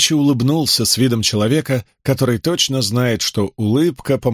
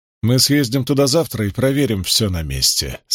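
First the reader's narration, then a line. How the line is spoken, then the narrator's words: Plain. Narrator (Russian): сказал Диэй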